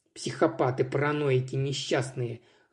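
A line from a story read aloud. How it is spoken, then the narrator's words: Angry cursing. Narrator (Russian): злобно выругалась я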